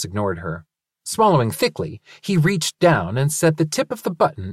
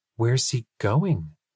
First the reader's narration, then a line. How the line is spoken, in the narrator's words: Linus asked faintly